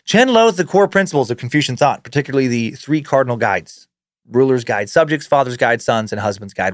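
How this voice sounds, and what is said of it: Usual voice. Nothing is said of it.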